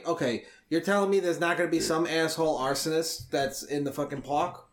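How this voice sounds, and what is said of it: New York accent. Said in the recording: “you got the New York accent out of me ... Park is now spelled like walk ... It's better than Boston”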